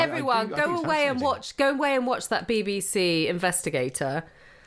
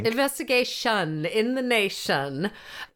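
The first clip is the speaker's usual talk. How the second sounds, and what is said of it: Put-on accent. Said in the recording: “Did you kind of put on a cord? What sort of accent did you just put on? ... I was doing the opening of Pass the Duchy.”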